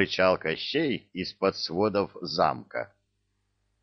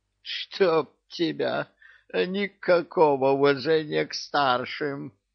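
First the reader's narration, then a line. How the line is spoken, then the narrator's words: Creaky voice. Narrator (Russian): Проскрипел Кощей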